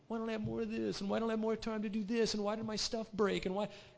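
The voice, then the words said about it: Whiny voice. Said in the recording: “I'm using a whiny voice”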